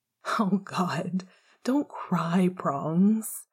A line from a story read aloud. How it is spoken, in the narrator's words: Remus groaned